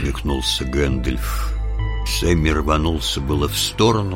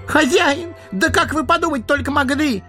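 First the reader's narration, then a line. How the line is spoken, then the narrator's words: Wailing shout, gardener. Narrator (Russian): завопил садовник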